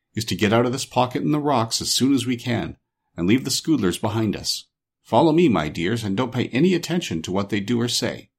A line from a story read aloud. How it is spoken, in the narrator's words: said the shaggy man to his friends in a low tone